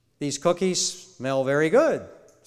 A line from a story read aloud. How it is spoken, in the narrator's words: said Toad